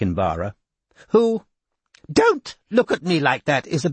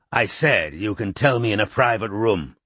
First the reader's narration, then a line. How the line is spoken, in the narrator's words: snarled Chisel